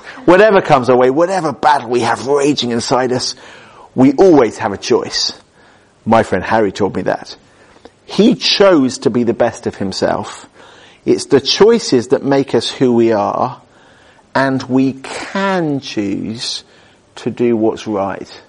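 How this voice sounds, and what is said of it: Put-on Hollywood movie voice. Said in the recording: “accent ... You've got to say it in a Hollywood voice.”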